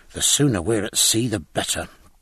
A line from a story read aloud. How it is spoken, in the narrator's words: muttered Jack Aubrey, looking anxiously